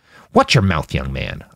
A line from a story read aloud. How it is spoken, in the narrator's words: Isaac snapped